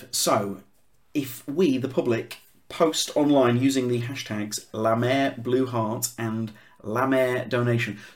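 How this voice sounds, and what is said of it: Leeds accent. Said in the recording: “my Leeds accent is not doing any favours to Lamer ... I'm making it sound like it's short for nightmare.”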